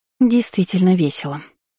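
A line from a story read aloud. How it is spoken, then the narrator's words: Through gritted teeth. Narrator (Russian): процедила сквозь зубы Аннет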